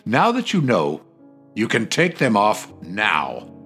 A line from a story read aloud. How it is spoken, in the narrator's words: Abreu said in a stern voice